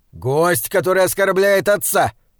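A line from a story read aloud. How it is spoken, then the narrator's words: Barking. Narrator (Russian): рявкнул Гвитин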